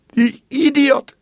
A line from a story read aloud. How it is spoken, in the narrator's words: wailed